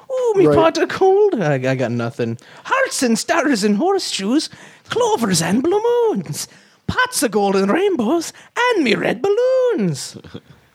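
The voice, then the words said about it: Lucky Charms leprechaun cartoon voice. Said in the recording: “trying to do an impression ... I got the Lucky Charms out”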